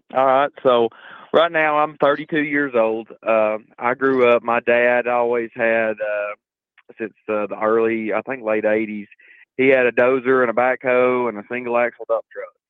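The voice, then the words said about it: Deep Southern US drawl. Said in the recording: “you sound like you're from Georgia ... That deep southern drawl.”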